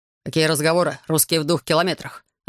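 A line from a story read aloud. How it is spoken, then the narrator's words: Irritated curt remark. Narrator (Russian): раздраженно бросил лейтенант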